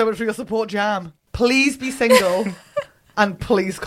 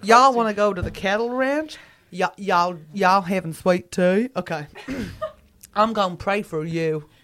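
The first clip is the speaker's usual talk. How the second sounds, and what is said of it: Put-on Texan accent. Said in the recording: “can you give me one more accent? ... Texan.”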